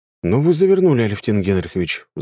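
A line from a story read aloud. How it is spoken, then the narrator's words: Sighing. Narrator (Russian): вздохнул я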